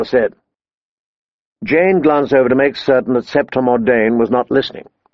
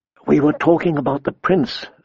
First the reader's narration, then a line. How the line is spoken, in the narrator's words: Sansa said, her voice soft as a kiss